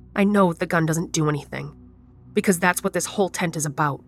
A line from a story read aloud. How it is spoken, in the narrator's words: says